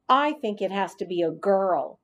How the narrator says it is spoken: said Kirk

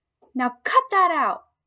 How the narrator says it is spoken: I squeaked at him

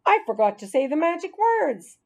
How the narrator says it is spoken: he exclaimed

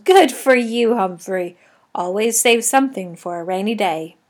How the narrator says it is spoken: Aldo chuckled

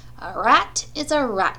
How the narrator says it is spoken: said Charlotte

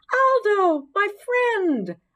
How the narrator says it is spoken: I squeaked as I jumped on my wheel and began spinning happily

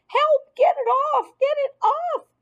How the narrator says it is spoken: screamed

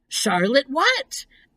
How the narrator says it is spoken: asked Wilbur eagerly

